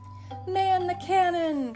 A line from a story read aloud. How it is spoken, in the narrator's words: cried Jerry